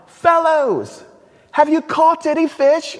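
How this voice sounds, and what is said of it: Put-on British Monty Python accent. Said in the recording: “maybe Jesus had a British accent ... I'm thinking like Monty Python in this moment”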